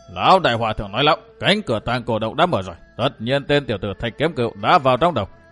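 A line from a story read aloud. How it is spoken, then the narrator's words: Nasal snort. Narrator (Vietnamese): Đầu lâu bảo chủ hừ bằng giọng mũi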